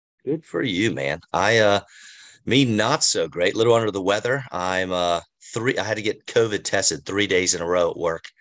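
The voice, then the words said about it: Hoarse, slightly strained voice. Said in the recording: “if I'm sounding a little hoarse”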